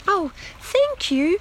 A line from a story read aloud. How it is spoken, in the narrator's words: squeaked Lettice